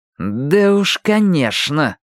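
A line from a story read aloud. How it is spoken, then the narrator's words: Speaking through teeth. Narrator (Russian): процедил Майки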